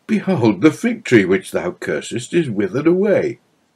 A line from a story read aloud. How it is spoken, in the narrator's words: cried Peter